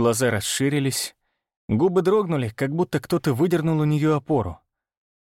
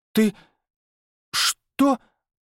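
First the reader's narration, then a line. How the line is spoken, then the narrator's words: Breathed out. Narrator (Russian): выдохнула она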